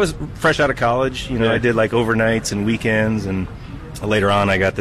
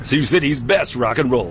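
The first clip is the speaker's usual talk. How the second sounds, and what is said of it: Radio DJ announcer voice. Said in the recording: “Do your DJ voice.”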